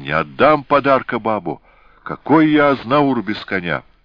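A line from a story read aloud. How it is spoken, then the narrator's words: Strangled shout. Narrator (Russian): Георгий сдавленно закричал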